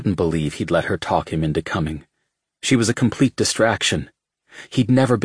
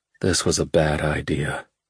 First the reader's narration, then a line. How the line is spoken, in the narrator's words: Rowan mumbled to himself